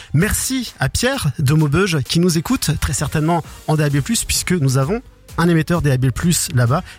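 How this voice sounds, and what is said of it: Ch'ti northern French accent, clipped words. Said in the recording (French): “je suis un vrai ch'ti ... mon accent est en train de revenir, vous entendez ... chez nous on a tendance à raccourcir un peu les mots”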